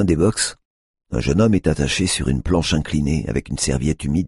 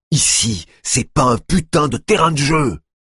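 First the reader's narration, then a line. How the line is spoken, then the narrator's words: Man yelling. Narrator (French): hurle l'homme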